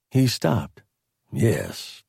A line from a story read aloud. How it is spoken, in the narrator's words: Doral said dryly